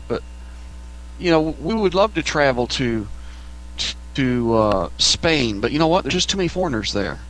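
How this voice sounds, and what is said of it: Texas accent. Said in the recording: “me being from Texas ... speaking of your accent ... he loves your accent. It cracks him up every time when he hears your accent”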